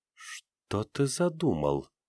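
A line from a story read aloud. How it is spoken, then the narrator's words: Muttered. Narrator (Russian): пробормотала наблюдавшая за ним Ноэль Ириаз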